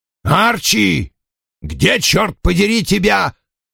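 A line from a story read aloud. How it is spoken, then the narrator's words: Booming from another room. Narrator (Russian): прогудел из гостиной Вульф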